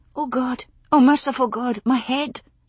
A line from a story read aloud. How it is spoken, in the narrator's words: whispered